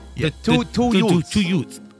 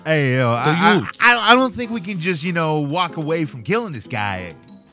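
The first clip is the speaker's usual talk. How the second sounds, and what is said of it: Imitates another person's voice. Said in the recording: “my Ralph Macchio impression.”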